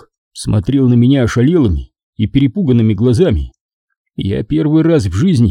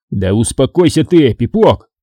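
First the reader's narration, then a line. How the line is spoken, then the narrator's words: Shouting in his face. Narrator (Russian): крикнул я ему в лицо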